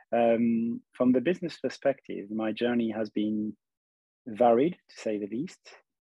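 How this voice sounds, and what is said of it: Mixed French and German accent. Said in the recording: “I'm French and half German, so the accent might be mixed.”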